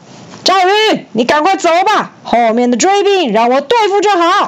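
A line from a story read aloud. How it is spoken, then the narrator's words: Loud ringing shout. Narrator (Chinese): 张飞用嘹亮的声音大叫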